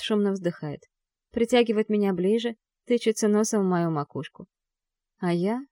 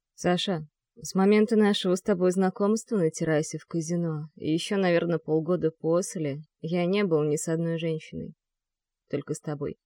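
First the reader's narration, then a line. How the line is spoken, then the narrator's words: Low muffled voice. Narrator (Russian): говорит глухо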